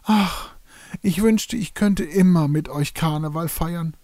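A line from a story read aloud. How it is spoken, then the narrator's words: Parrot sighing. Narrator (German): seufzte der Ara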